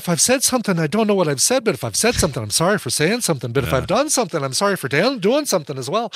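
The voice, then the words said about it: Put-on Irish accent. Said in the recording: “your Irish accent is better than Daniel Craig's... It's pretty good. It's not bad.”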